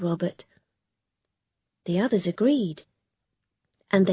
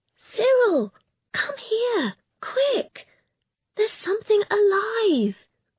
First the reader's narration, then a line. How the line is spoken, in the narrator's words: she cried